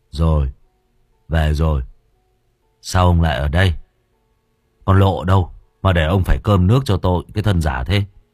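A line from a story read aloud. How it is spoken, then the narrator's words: Drunken slurred voice. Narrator (Vietnamese): Huyên đáp lại bố bằng giọng nè nhè như đẫm hơi men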